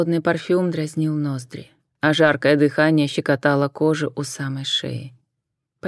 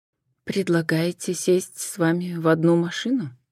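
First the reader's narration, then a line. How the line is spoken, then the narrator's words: Quiet clarifying question. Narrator (Russian): Также негромко уточнила Джен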